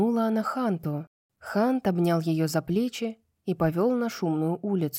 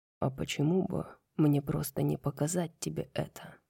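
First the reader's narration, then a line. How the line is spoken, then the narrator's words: Whisper in ear. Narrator (Russian): прошептал он ей на ухо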